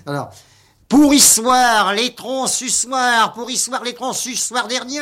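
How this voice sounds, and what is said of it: Working-class Parisian newspaper-seller cry. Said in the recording (French): “vous criez les journaux avec accent faubourien”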